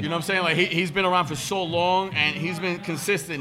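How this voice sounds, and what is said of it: New York accent. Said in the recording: “I'm too New York with the accent, and I know you see it.”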